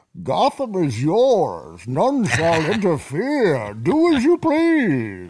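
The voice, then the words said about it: Bane impression. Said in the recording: “My Bane impression.”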